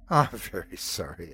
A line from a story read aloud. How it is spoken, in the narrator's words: said, but I was laughing much too hard